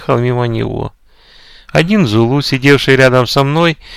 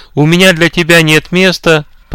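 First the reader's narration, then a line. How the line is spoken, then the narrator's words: Short shout. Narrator (Russian): коротко крикнул голосовавшему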